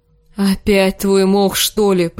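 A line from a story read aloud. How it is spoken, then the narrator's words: Groaning. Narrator (Russian): простонал Джендри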